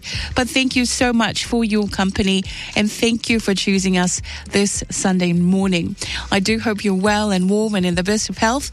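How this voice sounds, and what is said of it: Weakened, recovering voice. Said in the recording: “apologize for my voice, ... slowly getting my voice back”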